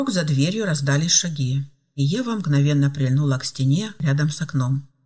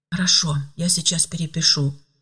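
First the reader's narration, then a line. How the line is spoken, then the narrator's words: Whispering. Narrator (Russian): шепнул Филипп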